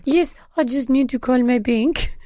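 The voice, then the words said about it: Put-on vaguely European French accent. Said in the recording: “I'm trying to sound French ... it's ambiguously European”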